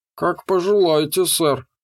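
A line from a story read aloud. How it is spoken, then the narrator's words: Grumbling robotic mutter. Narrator (Russian): буркнул железяка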